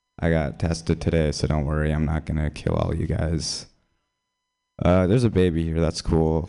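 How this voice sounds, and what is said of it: Hoarse, nearly lost voice. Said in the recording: “I don't have a cold, I just lost my voice.”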